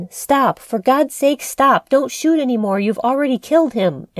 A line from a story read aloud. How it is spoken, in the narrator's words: screamed out above the din